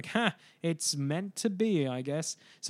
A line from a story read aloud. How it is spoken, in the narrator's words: we kind of chuckled and goes like